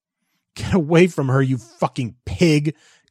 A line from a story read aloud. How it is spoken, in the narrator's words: Christopher sobbed